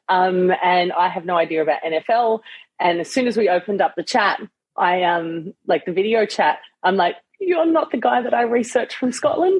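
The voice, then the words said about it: Australian accent. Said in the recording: “I'm in Australia, if you can't tell by the accent.”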